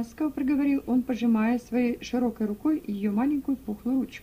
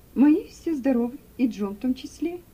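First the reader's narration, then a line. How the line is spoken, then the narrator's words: Cheerful. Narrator (Russian): весело ответила Руфь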